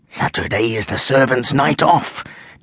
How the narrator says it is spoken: Jonathan whispered

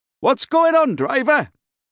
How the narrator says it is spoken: shouts somebody from the back of the bus

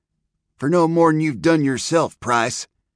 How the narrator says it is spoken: came the reply in a young, bitter voice

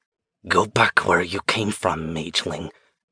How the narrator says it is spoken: she whispered

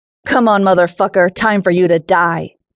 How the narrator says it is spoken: shouts as he draws near

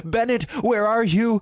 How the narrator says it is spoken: shouted

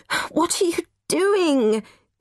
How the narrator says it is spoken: sobbed

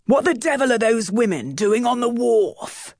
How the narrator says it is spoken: Captain Barsley roared

